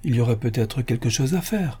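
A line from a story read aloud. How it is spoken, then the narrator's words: Chancellor murmuring. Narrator (French): murmura le chancelier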